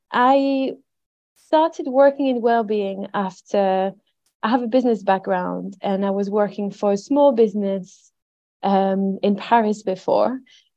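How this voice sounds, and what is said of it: French accent with Yorkshire hints. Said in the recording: “my French accent ... I have a French accent with Yorkshire hints”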